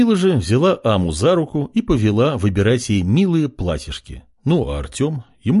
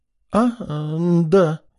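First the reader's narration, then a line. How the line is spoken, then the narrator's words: Uncertain reply, silver-haired woman. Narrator (Russian): неуверенно ответила сереброволосая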